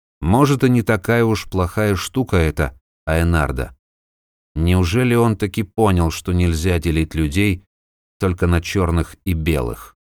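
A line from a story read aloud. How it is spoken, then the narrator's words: Muttering to himself. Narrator (Russian): бормоча себе под нос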